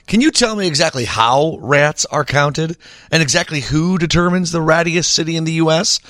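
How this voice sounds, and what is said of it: Sassy reading voice. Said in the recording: “I'm reading this in a sassy voice”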